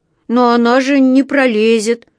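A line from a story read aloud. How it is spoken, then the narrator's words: Sad drawl. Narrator (Russian): грустно протянул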